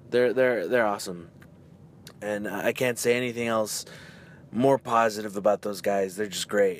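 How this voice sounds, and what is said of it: Hoarse, strained voice. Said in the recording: “That's why my voice is gone, man. ... everyone was just having fun, clapping, yelling”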